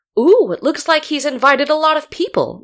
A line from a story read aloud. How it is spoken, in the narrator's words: Myungjun exclaimed happily